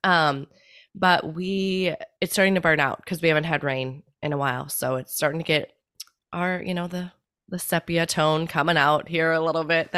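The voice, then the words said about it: Slightly congested voice. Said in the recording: “you can probably hear it in my voice a little bit, the allergies peeking up”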